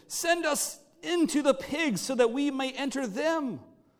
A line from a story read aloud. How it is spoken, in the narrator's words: The demons begged him